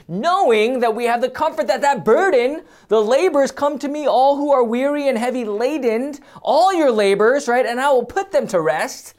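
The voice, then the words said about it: Loud, yelling preaching voice. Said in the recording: “I don't know why I'm yelling.”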